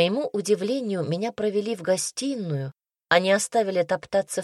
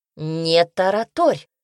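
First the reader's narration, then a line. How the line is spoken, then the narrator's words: Stern young woman. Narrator (Russian): строго сказала девушка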